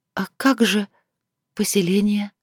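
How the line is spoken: Barely audible. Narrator (Russian): еле слышно произнесла

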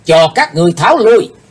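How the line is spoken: Sudden loud shout. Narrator (Vietnamese): thiếu giáo chủ của âm ma giáo bỗng hét vang lên

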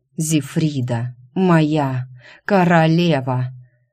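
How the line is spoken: Hoarse breathless whisper. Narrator (Russian): Почувствовав приближающуюся судорогу оргазма, хрипло шепнул он

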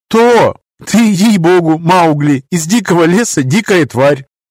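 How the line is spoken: Giggling. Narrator (Russian): хихикнула Эбби

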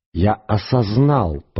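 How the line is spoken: Hiss. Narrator (Russian): прошипел голос

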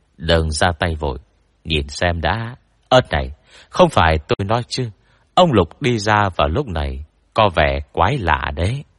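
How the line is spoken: Whisper. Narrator (Vietnamese): Tôn Bập thì thầm bên tai tôi

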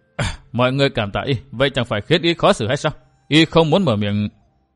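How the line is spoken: Smiling. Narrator (Vietnamese): Lâm Thành Phương mỉm cười

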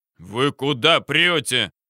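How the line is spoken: Deep bass voice from below. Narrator (Russian): басил снизу дежурный

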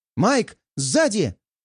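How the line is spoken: Shout. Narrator (Russian): крикнула мне Кира

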